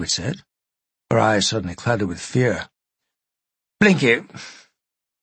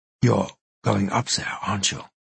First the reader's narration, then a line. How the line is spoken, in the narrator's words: Sigrid said, her voice trembling